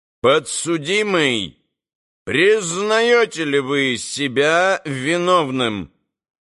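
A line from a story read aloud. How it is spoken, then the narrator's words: Loud, imposing question. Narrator (Russian): председатель громко и внушительно спросил Митю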